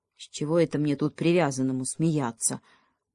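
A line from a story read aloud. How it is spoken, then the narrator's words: Gloomy answer. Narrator (Russian): мрачно ответил Бобренок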